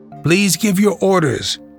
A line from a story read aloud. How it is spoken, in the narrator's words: replied Boisdelot